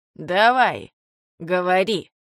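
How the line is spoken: Growling man. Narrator (Russian): прорычал мужчина

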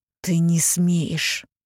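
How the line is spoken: Hissed. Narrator (Russian): прошипела она

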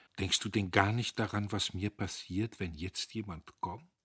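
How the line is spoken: Sad question. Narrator (German): Sie fragte traurig

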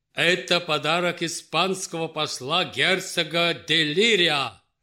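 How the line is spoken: Loud. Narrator (Russian): громко сказал Петр Алексеевич

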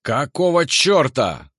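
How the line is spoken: Yell from the right. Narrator (Russian): заорал кто-то справа

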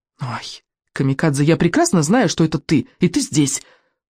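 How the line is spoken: Whisper. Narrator (Russian): прошептал Экинг

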